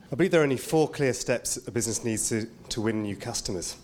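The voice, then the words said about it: English accent. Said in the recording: “another English accent”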